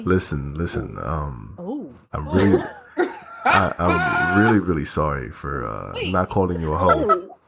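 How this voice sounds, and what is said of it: Exaggerated deep, sexy voice. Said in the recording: “In a very deep, sexy voice. ... the very white voice.”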